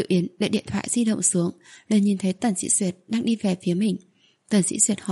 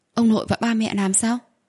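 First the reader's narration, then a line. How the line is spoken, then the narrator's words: Astonished exclamation. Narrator (Vietnamese): Tần Dĩ Duyệt kinh ngạc thốt lên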